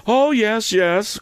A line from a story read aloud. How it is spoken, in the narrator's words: cried Camilla, whose fermenting feelings appeared to rise from her legs to her bosom